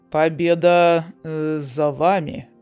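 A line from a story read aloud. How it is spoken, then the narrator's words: Gloomy. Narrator (Russian): мрачно произнес Лорат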